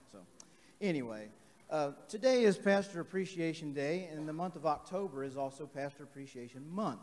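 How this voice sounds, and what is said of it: Strained, worn-out voice. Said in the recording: “excuse my voice ... can't be heard unless I'm yelling”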